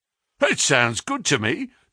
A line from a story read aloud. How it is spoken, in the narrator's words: cried Sam Merton with a grin